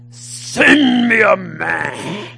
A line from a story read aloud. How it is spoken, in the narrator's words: Goliath cries out with a great roar